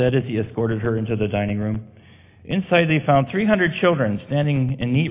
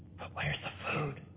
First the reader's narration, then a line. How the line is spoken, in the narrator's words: Abigail asked in a whisper